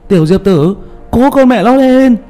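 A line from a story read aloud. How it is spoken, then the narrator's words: Loud shout through cupped hands. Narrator (Vietnamese): hai tay trộm trộm lại để trên miệng hét lớn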